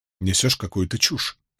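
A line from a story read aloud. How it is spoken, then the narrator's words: Muttering. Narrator (Russian): пробормотал Перин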